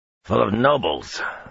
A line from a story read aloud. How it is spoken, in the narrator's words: Vannin growled